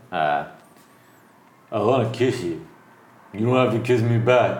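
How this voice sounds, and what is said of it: Imitates another person's voice. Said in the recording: “Do your best in Sylvester Stallone impression. ... That's not bad. That's not bad.”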